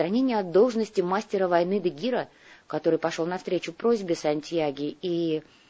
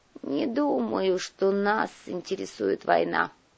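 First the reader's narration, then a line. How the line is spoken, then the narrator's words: Grumbled. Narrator (Russian): буркнул князь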